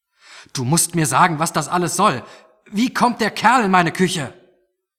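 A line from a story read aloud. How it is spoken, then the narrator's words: Shouting back. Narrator (German): Toni ... schrie zurück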